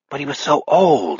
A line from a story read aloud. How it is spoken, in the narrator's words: Henry whispers